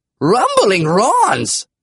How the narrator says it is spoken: the man exclaimed

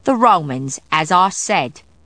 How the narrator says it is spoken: Hubbard replied sharply

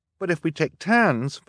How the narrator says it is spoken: Violet said frantically

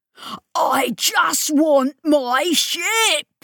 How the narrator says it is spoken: he was howling

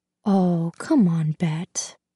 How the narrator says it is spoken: he says instead, the whisper of his voice

